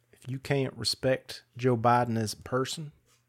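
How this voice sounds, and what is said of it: Put-on Texas Southern accent. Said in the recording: “All of my Southern accents are Texas. ... Always go to Texas, man. It's the only Southern accent I can do.”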